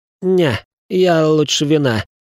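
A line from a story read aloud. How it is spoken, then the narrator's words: Hoarse wheeze. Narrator (Russian): просипел графёныш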